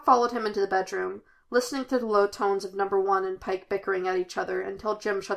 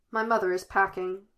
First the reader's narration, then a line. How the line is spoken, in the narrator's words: he said